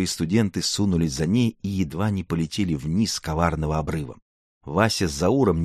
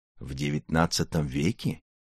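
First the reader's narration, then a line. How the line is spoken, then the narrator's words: Hoarse reply. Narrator (Russian): сипло откликнулся Заурбек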